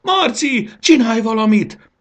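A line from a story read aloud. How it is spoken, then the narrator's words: Screaming. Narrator (Hungarian): sikított Fanni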